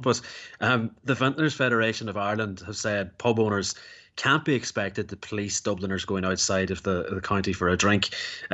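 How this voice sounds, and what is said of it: Dublin Irish accent. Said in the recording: “I didn't bump into any Dubs in Kildare today, but I suppose I wouldn't know the difference. When I go to places like this, the only accent that stands out is my own.”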